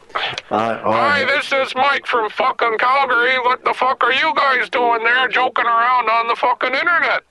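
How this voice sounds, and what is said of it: Exaggerated thick Canadian accent. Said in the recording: “I'll do Canadian. ... thick ass Canadian accent ... I want to hear a thick ass accent. ... How thick?”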